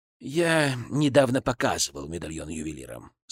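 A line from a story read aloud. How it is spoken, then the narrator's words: Calm male reply. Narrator (Russian): спокойно ответил князь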